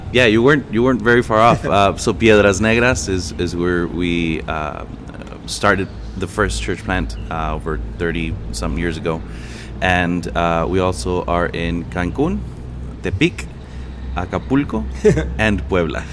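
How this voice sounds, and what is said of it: Native accent pronouncing Mexican place names. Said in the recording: “your great accent and correct pronunciation ... Much better when you say it.”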